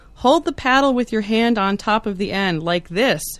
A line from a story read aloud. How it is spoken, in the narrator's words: she shouted